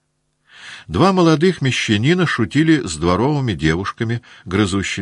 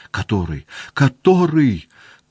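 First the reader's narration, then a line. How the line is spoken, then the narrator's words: Tearful asking. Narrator (Russian): плачущим голосом спрашивал Петя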